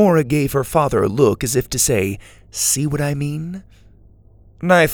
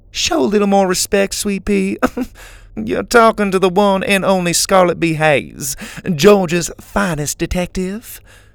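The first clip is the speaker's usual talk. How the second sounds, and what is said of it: Southern drawl. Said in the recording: “said Laney in a southern drawl”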